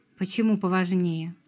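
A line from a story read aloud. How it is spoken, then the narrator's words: Icy question. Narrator (Russian): спросил он ледяным тоном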